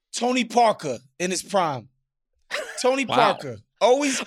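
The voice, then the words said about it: New York accent. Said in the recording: “you added the Knicks accent there, too. The New York one came out.”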